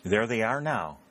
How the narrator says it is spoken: exclaimed Mrs

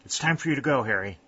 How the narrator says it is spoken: said Colonel Kenton, somewhat unsteadily

